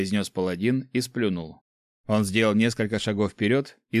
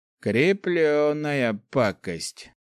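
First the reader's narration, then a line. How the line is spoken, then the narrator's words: Hoarse muttering under breath. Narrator (Russian): просипел под нос Гош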